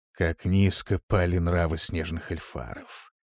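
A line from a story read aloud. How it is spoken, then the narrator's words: Whisper. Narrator (Russian): прошептал он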